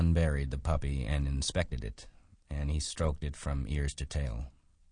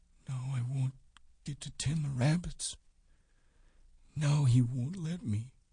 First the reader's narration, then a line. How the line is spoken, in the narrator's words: he whispered